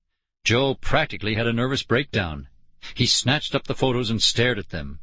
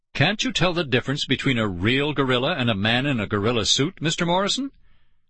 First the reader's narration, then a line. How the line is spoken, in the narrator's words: I chuckled